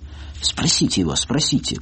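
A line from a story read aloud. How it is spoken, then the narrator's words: Triumphant whisper. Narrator (Russian): прошептала Люся, предчувствуя свое торжество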